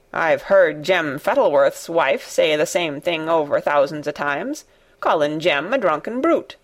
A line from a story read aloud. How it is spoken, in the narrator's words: said Ben Weatherstaff dryly